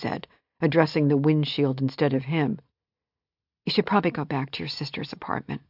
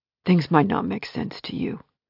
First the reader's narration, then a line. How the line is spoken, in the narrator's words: he said, his voice low and rough